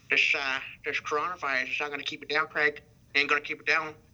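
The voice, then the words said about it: Imitates another person's voice. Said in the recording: “that Bruce Dern impression”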